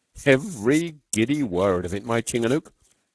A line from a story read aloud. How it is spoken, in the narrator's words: said Beetle